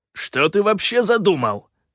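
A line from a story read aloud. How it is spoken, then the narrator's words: Irritated bark. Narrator (Russian): раздраженно рявкнул Калаан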